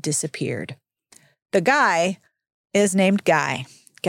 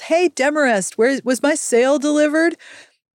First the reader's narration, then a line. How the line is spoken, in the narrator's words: some guy on a sweating horse yells